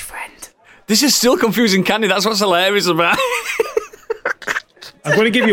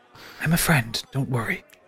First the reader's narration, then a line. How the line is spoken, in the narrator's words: she whispers in your ear